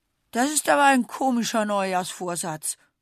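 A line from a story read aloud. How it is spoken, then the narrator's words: Groaning. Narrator (German): stöhnt Bertie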